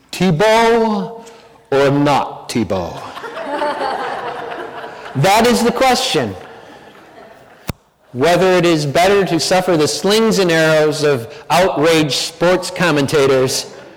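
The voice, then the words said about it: Theatrical Shakespearean actor voice. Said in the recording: “You have to say it in your best Shakespearean actor accent.”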